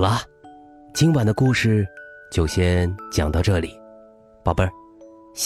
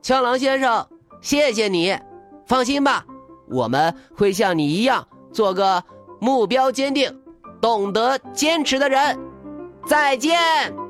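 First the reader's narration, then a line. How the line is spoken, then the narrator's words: Shouting while running. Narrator (Chinese): 他边跑边回头喊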